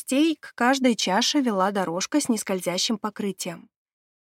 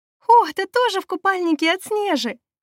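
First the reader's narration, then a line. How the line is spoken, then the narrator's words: Exclaimed. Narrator (Russian): воскликнула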